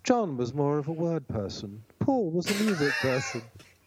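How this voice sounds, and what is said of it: Mock academic lecturing voice. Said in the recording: “I'll do them in my Beatles academics voice.”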